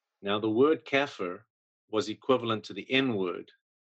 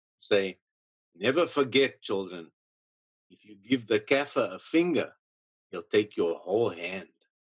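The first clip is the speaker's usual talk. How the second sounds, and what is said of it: Heavy put-on Afrikaans accent. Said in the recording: “I'm going to try and say it the way he would say it ... in a heavy Afrikaans accent”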